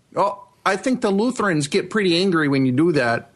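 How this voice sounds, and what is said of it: Put-on Fargo Minnesota accent. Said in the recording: “binge-watching Fargo ... this fucking accent's been stuck in my head for, like, days”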